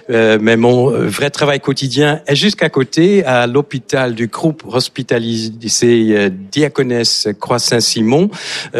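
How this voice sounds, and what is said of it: Slight Dutch accent in French. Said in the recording (French): “vous avez un léger accent ... Je suis néerlandais”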